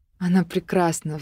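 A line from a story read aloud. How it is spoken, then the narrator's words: Sigh. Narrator (Russian): вздохнула я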